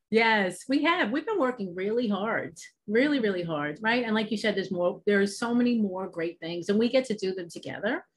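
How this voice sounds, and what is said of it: New York accent. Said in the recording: “Obviously you can hear my accent. I'm from New York”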